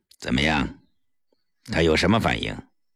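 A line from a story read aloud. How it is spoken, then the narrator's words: Cold question. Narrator (Chinese): 他冷冷地问顾青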